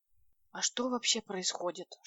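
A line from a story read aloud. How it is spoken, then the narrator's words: Whispered question. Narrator (Russian): шепотом спросила Леночка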